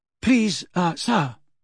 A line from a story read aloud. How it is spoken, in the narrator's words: said Parvati breathlessly